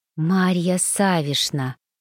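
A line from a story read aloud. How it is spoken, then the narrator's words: Mouthed whisper. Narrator (Russian): одними губами прошептала Инесса Ивановна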